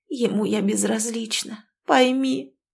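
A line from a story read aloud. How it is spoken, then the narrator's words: Hoarse strained voice. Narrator (Russian): просипела Ирина с надрывом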